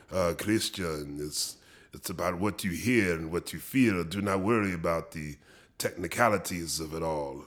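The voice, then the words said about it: Thick Argentinian accent imitation. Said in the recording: “very thick Argentinian accent”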